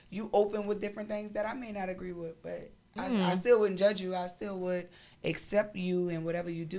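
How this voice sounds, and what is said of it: New Orleans accent, drawn-out O. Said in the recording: “I hate this accent. ... I'm from New Orleans. ... when you carry that O.”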